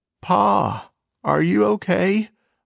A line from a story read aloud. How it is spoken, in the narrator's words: sobbed